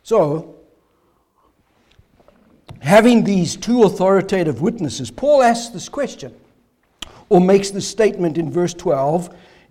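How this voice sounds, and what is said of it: Strained, failing voice. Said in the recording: “my voice is failing.”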